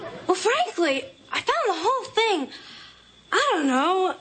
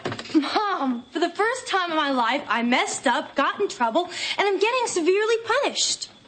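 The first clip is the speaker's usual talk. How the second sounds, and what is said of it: Sounds cheerful despite bad news. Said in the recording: “Why do you sound so happy?”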